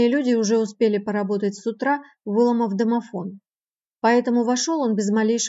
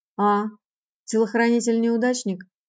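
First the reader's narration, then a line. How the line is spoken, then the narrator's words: Calm, drawling, mocking singsong. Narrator (Russian): говорил Сирил тоже очень спокойно, тягуче и напевно, насмешливо и издевательски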